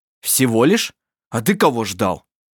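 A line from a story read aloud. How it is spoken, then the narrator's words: Rough question. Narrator (Russian): спросил он грубо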